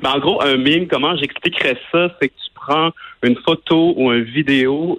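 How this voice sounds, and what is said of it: Regional Quebec French Baie accent. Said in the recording (French): “Tu dis même avec ton accent de la baie ... mon accent ne me quittera jamais”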